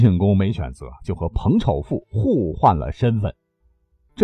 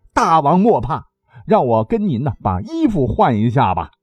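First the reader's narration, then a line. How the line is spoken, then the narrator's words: Loud. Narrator (Chinese): 彭丑富却大声说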